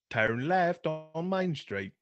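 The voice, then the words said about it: Attempted Australian accent. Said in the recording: “an Australian accent ... can't do it. I can't”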